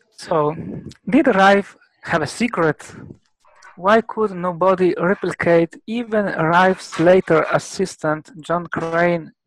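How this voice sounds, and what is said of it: Italian accent in English. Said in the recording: “I apologize also if I have a terrible Italian accent.”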